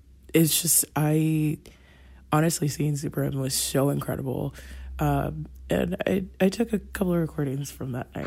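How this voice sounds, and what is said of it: Strained voice, not her usual sound. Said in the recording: “tell by my voice, I don't usually sound like this. I have never before yelled at a girl like this.”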